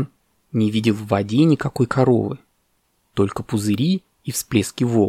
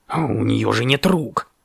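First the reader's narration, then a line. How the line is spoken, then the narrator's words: Raven grumbling. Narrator (Russian): пробурчал ворон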